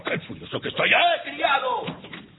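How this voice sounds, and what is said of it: Shouting angrily. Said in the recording (Spanish): “no grites”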